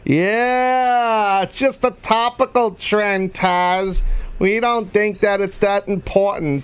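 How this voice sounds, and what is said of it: Mocking impression of a corporate detractor. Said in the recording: “That's me imitating one of my, not a boss, a person that works corporate here ... A detractor ... A heel ... A jealous heel”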